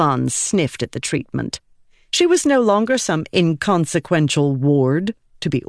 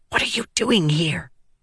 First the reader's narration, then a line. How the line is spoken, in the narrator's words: she hissed at him